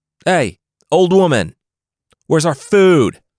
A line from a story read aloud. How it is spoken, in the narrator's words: the group's leader shouted